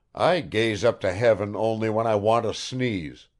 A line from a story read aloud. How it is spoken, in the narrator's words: growled Bazarov